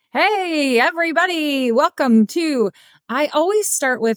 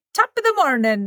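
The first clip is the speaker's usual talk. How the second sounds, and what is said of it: Poor put-on Irish accent. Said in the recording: “That was not good... how do you do an Irish accent?”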